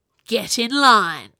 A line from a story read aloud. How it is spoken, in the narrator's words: snarled Princess Camilla